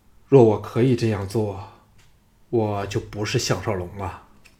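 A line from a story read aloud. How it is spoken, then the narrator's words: Sighing. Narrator (Chinese): 项少龙叹了一口气说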